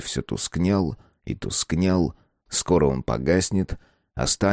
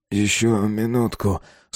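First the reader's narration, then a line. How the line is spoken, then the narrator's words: Sleepy. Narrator (Russian): сонно выговорил Безил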